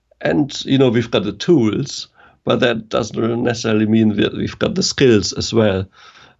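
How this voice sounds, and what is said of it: German accent. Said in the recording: “I'm German, it's not my first language... you may have noticed from the accent”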